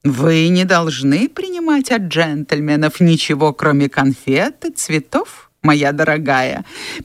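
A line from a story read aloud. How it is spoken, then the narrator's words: Mocking imitation. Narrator (Russian): передразнил он воображаемую дуэнью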